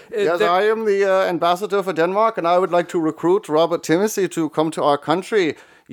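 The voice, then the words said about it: American doing a German accent. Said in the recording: “You sound eerily German. ... an American doing a German accent.”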